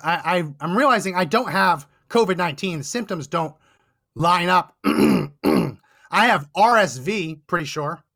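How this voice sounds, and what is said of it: Hoarse, failing voice. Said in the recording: “Losing my voice.”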